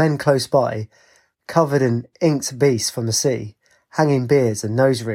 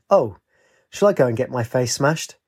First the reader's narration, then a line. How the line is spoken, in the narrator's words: he sighed